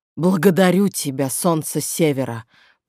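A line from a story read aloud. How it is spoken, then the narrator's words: Hoarse rasp. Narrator (Russian): прохрипел он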